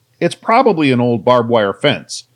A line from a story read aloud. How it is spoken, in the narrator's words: Jace exclaimed